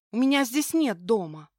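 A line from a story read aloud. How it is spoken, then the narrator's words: Snapping, drowned by thunder. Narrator (Russian): огрызнулась, но голос растворился в очередном отзвуке грома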